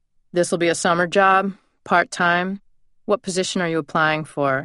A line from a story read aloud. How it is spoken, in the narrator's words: asked, rather gruffly